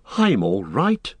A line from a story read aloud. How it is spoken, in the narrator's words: gasped Frodo